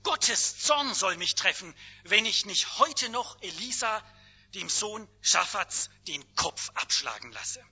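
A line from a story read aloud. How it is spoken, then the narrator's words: King calling out. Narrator (German): Der König rief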